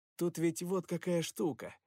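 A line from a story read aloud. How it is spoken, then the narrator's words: Plain. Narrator (Russian): сказал Перси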